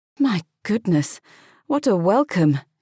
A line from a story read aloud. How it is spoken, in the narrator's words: she sighed